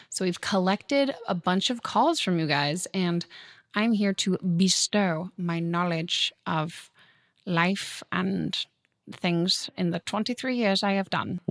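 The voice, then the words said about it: American doing a British accent. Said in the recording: “What's this British accent you're doing ... kind of British ... It's like a Harry Potter British accent where it's if like they cast an American”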